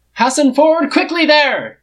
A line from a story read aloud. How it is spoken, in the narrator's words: Shitty yells